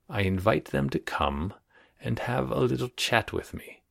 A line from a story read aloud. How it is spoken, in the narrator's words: he said in a soft voice